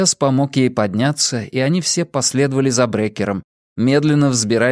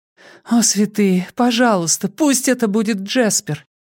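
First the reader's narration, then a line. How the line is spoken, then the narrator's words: Pleading prayer. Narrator (Russian): Взмолилась она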